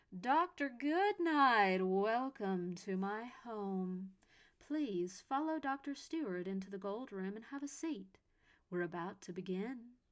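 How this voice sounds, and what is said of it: Rich voice, slightly southern accent. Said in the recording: “an unseen voice echoed around them, as richly opulent as the gilded doors themselves ... slightly southern in its accent.”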